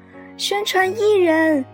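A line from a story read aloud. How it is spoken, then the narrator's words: Sudden loud shout. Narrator (Chinese): 小豆豆突然朝外面大声叫道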